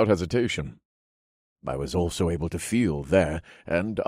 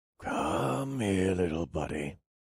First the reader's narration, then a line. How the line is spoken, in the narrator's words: whispered